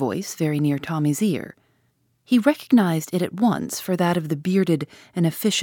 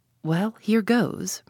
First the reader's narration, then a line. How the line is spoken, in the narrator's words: murmured Tommy to himself